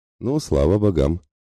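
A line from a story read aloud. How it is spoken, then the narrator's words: Snorting. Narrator (Russian): хмыкнул Мирослав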